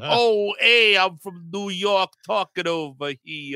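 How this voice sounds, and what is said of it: Bad put-on New York accent. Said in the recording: “a bad, bad Brad Pitt New York accent”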